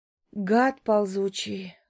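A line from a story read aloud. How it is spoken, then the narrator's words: Sad girl's voice. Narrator (Russian): грустным голосом произносит девушка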